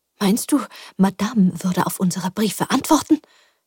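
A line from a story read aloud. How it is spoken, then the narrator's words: Hissing. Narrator (German): zischte Tante Roselin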